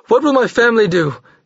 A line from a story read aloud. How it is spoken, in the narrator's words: he cried frantically